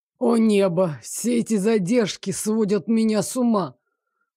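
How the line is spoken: Groaning. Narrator (Russian): Простонал Лоренс

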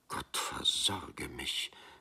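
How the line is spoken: Woman quietly blurting out. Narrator (German): stieß seine Frau leise hervor

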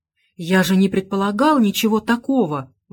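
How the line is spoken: Exclaiming. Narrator (Russian): воскликнул я

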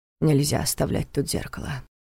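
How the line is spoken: Quiet but confident. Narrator (Russian): тихо, но уверенно заявил Неф

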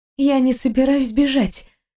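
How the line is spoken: Breathless, between kisses. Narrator (Russian): выдохнула всего на мгновение, разрывая поцелуй

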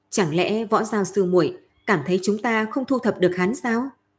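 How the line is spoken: Smiling, teasing question. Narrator (Vietnamese): Lam Đình mỉm cười nói

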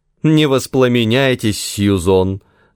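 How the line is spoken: Laughing loudly. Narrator (Russian): захохотала Мишель

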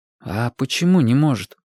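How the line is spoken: Quiet question. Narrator (Russian): тихо спросил Вашек

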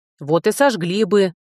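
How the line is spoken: Man grumbling. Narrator (Russian): проворчал мужчина

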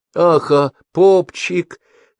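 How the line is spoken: Confused mutter. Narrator (Russian): растерянно пробормотал

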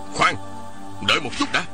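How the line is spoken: Hurried shout. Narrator (Vietnamese): Một Tang vội ... quát lên

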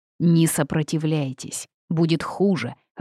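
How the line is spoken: Growling. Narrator (Russian): рыкнул кто-то рядом

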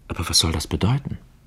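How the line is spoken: Whispered question. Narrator (German): fragte flüsternd

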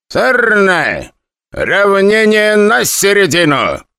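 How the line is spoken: Loud. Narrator (Russian): громко произнес Пяткин

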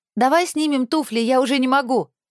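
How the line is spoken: Loud. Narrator (Russian): громко сказала Алла

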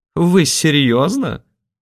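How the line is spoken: Burst of laughter. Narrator (Russian): расхохотался Михаил Владимирович

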